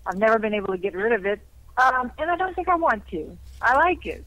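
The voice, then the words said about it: Cajun accent. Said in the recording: “you speak with a Cajun accent”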